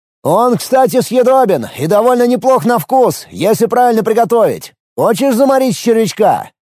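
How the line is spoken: Sudden shout. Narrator (Russian): Тут же закричал

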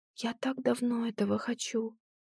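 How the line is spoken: Trembling half-whispered mumble. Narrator (Russian): дрогнувшим полушепотом бормочет Клем

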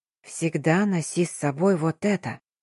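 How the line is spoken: Barely audible. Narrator (Russian): едва слышно сказала она

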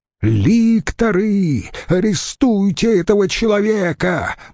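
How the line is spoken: Shout trembling with rage. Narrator (Russian): дрожа от гнева, выкрикнул тот

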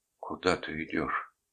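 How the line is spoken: Quiet question. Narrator (Russian): негромко спросила она

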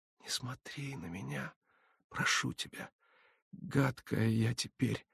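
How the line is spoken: Pleading whisper. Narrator (Russian): умоляюще шептала Олеся

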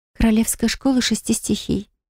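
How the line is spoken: Quiet answer. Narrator (Russian): тихо ответила девушка

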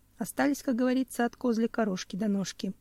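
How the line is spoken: Sad sigh. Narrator (Russian): грустно вздохнул охотник

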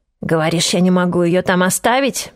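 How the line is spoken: Hoarse wheeze. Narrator (Russian): просипел он

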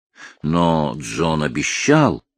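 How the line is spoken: Agitated exclamation. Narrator (Russian): взволнованно воскликнул Гаррет

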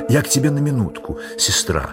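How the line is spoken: Innocent tone. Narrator (Russian): заговорил самым невинным тоном полковник

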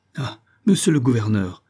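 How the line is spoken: Distraught exclamation. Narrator (French): s'écria Isaac Hakkabut, tout défait

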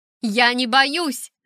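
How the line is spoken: Shout. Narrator (Russian): закричала я

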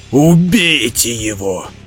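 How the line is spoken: Growled command. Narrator (Russian): зарычал Граул и приказал оркам

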